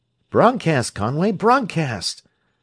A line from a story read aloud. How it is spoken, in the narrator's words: that worthy had cried as Costigan's image had disappeared utterly from his plate